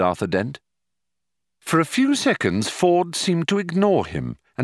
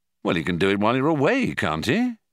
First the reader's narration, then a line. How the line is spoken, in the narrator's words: he asked